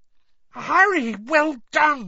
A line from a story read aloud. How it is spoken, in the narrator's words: Hermione cried